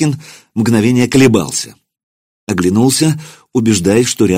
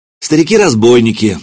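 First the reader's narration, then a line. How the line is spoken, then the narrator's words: Said gloomily. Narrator (Russian): мрачно сказал Маркин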